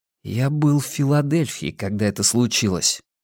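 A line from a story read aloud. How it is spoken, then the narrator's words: Quiet. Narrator (Russian): тихо проговорил Арни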